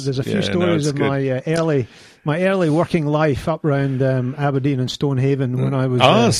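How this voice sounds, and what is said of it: Scottish accent. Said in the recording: “I'm picking the Scottish accent.”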